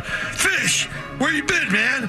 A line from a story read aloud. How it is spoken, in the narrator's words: Pete yelled